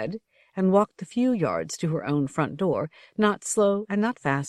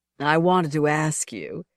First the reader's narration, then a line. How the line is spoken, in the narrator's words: his voice slurred off